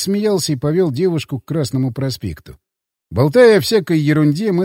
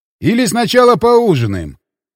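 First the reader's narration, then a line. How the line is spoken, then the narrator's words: Shouted. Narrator (Russian): крикнул я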